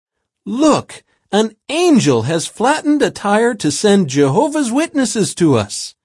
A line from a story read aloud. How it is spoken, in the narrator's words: he cried out